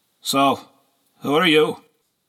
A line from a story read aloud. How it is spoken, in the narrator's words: In a bored voice he asked